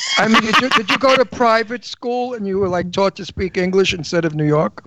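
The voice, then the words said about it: New York accent. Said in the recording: “you don't have a New York accent... I do... If you were from Brooklyn or New York, you would have really spoken like we do”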